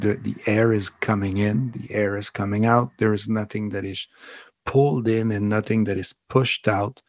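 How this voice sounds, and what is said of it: Foreign accent, slow speech. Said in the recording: “Where is that accent coming from? Why is he speaking so slow?”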